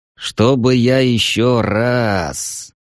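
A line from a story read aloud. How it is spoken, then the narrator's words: Groan. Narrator (Russian): простонал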